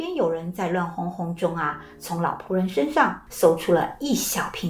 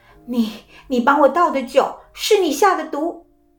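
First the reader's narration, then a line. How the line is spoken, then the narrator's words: Angry question. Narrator (Chinese): 愤怒地问道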